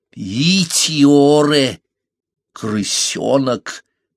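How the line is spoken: Deep chesty voice. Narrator (Russian): проговорила она своим грудным голосом

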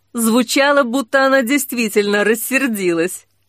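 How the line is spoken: Laughing. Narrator (Russian): рассмеялся Огонь

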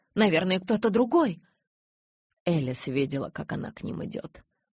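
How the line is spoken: Plain. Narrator (Russian): сказал Эдвард

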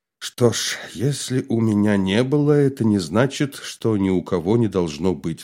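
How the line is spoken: Sighing. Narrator (Russian): вздохнул Лев Абрамович

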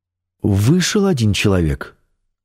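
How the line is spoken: Plain. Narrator (Russian): сказала Светлана

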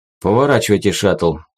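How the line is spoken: Dejected, sinking voice. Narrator (Russian): упавшим голосом проговорил полковник

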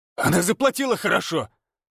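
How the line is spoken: Barked reply. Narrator (Russian): рявкнул Федор в ответ

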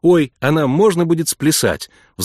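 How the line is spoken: Excited question. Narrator (Russian): взволнованно спросила Эмма

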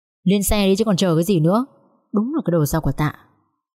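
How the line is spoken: Irritated voice. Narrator (Vietnamese): Vũ nói với Dung vẫn bằng giọng khó chịu

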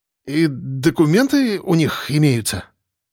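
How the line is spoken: Uncertain nervous bleat. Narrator (Russian): Неуверенно проблеял участковый, все еще не зная, то ли бояться ему, то ли успокоиться

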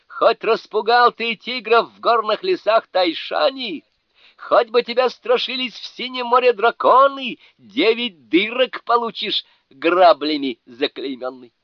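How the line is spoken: Battlefield shout. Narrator (Russian): Джо Бадзе Великий крикнул на поле брани

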